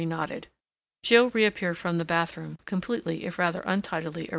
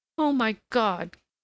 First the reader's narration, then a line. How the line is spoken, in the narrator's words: cried the girl